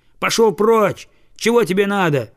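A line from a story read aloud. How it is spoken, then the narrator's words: Shouted. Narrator (Russian): крикнул он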